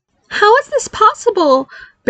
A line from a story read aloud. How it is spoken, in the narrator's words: Barry cried